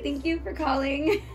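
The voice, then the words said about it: Polite customer-service phone voice. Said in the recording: “Let's hear your phone voice ... everybody has a phone voice”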